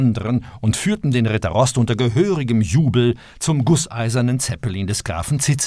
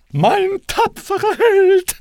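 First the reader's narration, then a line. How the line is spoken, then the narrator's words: Calling. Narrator (German): rief sie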